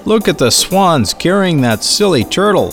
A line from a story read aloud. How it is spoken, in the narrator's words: someone shouted